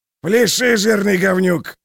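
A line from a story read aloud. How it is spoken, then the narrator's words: Barking. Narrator (Russian): рявкнул он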